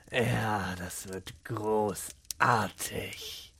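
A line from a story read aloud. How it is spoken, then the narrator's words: Muttered to himself. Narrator (German): murmelte er vor sich hin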